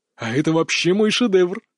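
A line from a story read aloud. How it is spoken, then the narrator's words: Giggling. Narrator (Russian): Мак хихикал под потолком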